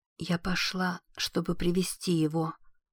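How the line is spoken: Whisper. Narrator (Russian): прошептала Лизи

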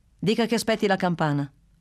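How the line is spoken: Curt reply. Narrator (Italian): rispose così seccamente

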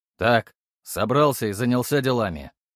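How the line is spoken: Commanding voice. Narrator (Russian): произнес я командным голосом

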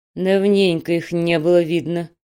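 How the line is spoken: Grumbling mother. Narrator (Russian): проворчала мамаша

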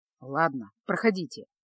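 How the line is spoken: Gruff mutter. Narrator (Russian): буркнул он

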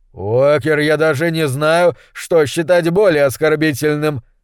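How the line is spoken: Growl. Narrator (Russian): зарычал Уортроп

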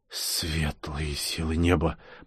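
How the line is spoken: Shocked whisper. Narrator (Russian): потрясенно прошептал я

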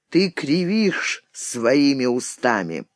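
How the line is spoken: Quiet, dejected. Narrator (Russian): несчастный, отвергнутый юноша тихо произнес

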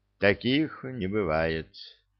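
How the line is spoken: Sad sigh. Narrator (Russian): грустно вздохнул Гладков

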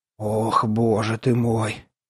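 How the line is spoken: Frightened old man's gasp. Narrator (Russian): испуганно выдохнул дед Митрофан Савин

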